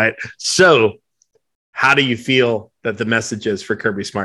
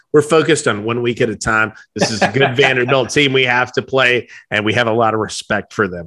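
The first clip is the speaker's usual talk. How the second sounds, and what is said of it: Imitates another person's voice. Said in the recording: “you nailed the impersonation there”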